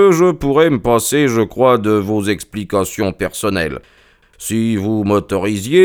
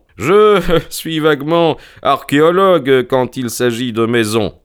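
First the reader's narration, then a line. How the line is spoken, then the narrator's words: Laughing. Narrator (French): dit Holmes en riant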